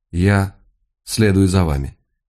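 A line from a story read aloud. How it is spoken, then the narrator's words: Quiet, calm voice. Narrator (Russian): она произнесла тихим, спокойным голосом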